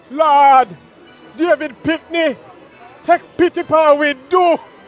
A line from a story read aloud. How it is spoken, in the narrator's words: them shout out